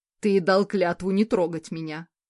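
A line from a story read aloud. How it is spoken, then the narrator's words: Roaring. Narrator (Russian): взревел Карл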